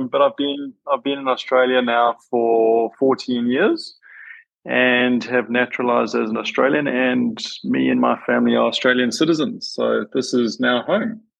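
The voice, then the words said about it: Slight South African accent. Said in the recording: “do I detect a slight accent? ... You do. Born and bred in South Africa”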